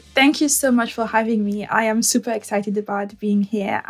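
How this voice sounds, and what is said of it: French accent in English. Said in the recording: “I'm trying very hard not to sound too French, but this is me”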